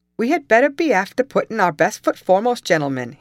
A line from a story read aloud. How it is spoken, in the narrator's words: he exclaimed